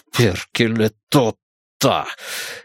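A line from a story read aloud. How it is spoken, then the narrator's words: Mutter. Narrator (Russian): Пробормотал, наконец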